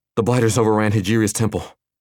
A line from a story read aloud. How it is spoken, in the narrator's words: Newton said between breaths